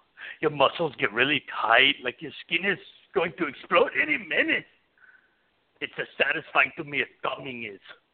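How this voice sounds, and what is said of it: Bad Arnold Schwarzenegger impression. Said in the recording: “That's an awful Arnold Schwarzenegger impersonation.”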